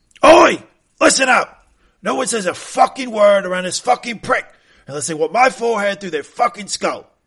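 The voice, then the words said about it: Angry Roy Kent impression. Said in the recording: “Did you do a perfect Roy voice?”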